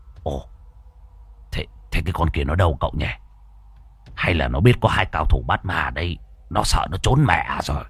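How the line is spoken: Old man muttering. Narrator (Vietnamese): Lão lẩm bẩm

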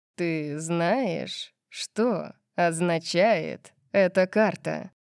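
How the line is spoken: Slow, toying. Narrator (Russian): спросил медленно, как будто играл со своей едой

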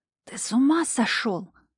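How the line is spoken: Hissing. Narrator (Russian): зашипела я в мужской затылок

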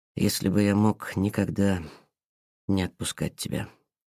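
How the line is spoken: Quiet speech. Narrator (Russian): тихо сказал Петр

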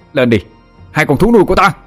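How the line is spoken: Loud shout. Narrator (Vietnamese): Thằng Vinh hét to

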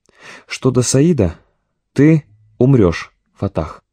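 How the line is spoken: Plain. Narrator (Russian): сказал комбат

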